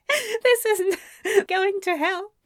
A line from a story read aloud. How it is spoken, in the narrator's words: he said between giggles